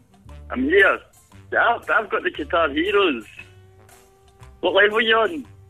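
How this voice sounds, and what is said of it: Thick Scottish accent. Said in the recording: “thick Scottish brogue”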